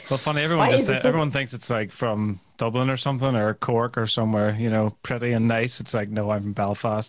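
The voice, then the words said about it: Northern Irish accent. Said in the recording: “It sounds so much better in the northern accent.”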